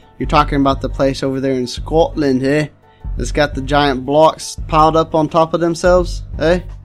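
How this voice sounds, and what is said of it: Put-on Scottish accent. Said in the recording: “It's a fantastic accent. I mean, I love it. ... I've actually spent 10 years in Scotland, so I had to assimilate the accent over there”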